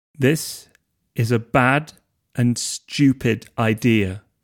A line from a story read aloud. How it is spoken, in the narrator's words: said Harry, slowly, enunciating each word